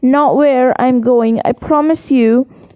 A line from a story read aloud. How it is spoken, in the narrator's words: said Harry